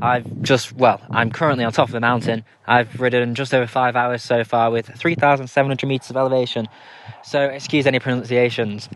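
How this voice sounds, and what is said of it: Tired-sounding voice. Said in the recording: “if I sound a bit tired.”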